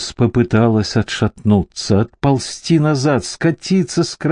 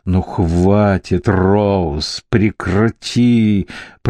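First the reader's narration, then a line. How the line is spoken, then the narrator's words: Growl through clenched teeth. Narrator (Russian): прорычал сквозь стиснутые зубы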